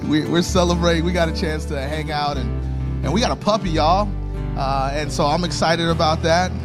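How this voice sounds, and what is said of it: Hoarse, strained voice. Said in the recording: “I have been losing my voice since Tuesday ... I've been losing my voice.”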